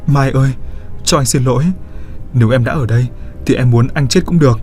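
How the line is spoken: Crying trembling voice. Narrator (Vietnamese): Lâm chợt bật khóc rồi run run nói

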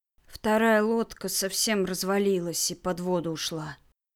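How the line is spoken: Gloomy. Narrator (Russian): мрачно объяснил Кирилл

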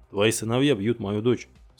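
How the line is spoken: Plain. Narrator (Russian): сказал Накамура

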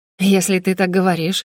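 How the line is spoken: Breathy after laughing. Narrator (Russian): отсмеявшись, выдохнула Роза

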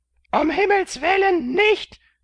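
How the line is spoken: Nurse screaming. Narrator (German): schrie die Wärterin

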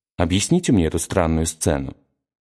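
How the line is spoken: Dry tone. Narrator (Russian): сказал он ей сухо

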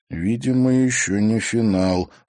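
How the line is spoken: Low voice. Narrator (Russian): вполголоса сказал Тимофей

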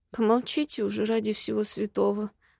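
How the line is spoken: Groaning. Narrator (Russian): простонала

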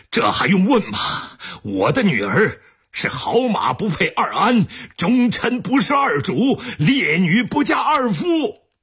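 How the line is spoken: Drunk old man shouting angrily. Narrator (Chinese): 他的老爹又喝了二两猫尿，粗脖子红脸的嚷道

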